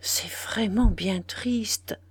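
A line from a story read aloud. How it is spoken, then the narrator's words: Murmuring. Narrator (French): murmura-t-il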